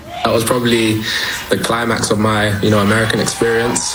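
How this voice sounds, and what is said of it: British accent. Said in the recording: “I was born in New York and grew up in London, you know, hence the British accent.”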